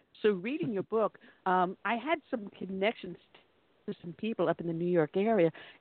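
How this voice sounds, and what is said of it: New York accent. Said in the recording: “as you can tell from my dialect, I am not from the South ... I am a native New Yorker”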